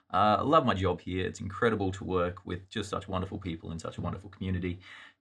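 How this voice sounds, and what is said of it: Australian accent. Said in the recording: “from your accent, you could probably tell that ... is not native here to the United States ... My accent is Australian”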